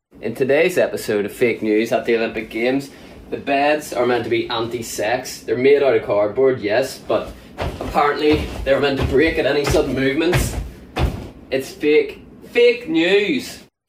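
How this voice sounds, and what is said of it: Irish accent. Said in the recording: “the Irish gymnast ... It's a solid accent.”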